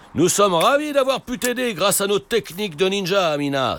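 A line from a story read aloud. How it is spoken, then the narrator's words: Exclaimed. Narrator (French): s'écrie Papa Ninja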